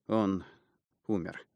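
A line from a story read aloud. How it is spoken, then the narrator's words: Dejected, sinking voice. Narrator (Russian): подтвердил я упавшим голосом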